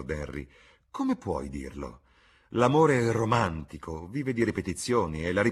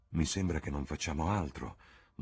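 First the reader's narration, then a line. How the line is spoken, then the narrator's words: Murmured. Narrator (Italian): mormorò Dorian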